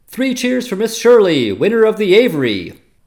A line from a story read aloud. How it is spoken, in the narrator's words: somebody called out